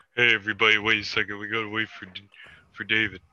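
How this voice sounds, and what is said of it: Imitates another person's voice. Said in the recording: “Is that your impression of me? ... I thought I sounded just like you.”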